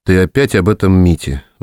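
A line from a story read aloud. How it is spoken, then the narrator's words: Sighed. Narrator (Russian): вздохнул Сергей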